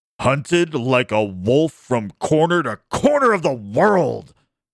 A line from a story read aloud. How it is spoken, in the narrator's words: Eric cried angrily